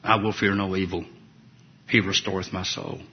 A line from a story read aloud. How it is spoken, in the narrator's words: The bubbles of blood from the chest wound now much smaller than before, quietly muttered